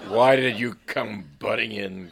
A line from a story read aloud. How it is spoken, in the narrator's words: groaned Sidney McMurdo